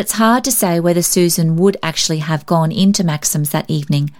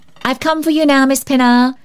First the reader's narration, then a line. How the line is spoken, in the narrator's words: cried Polly gaily